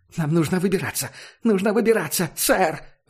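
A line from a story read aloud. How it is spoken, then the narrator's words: Pleading again. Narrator (Russian): Вновь взмолился ученый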